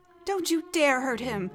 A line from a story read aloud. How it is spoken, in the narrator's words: Pyg cried out